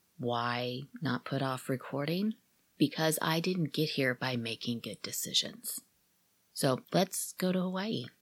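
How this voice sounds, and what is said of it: Ragged, worn voice. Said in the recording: “my voice is a little ragged today”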